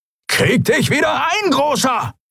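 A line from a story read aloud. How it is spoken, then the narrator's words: Shriek. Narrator (German): kreischte Halbhorn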